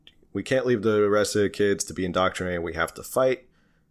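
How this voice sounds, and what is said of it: New Jersey accent. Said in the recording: “my Jersey accent.”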